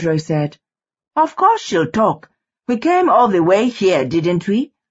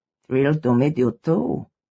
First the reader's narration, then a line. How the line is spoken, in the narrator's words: Pedro said under his breath